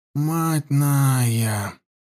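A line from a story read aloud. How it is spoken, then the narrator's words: Priest's drawl. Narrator (Russian): протянул жрец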